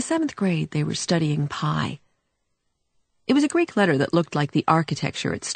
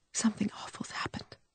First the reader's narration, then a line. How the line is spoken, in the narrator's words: whispered